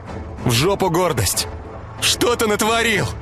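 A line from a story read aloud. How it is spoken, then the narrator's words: Shouting. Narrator (Russian): кричала Ира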